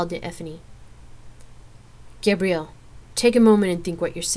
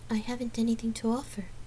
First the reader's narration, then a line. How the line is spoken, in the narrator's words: Gabrielle answered softly